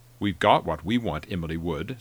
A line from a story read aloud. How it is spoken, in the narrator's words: Stone said